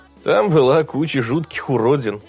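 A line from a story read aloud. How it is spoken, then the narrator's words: Wry grunt. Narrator (Russian): хмыкнул он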